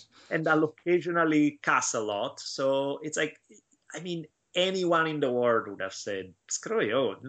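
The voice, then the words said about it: Heavy Italian accent. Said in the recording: “I'll speak with this super heavy Italian accent, because that's how I speak”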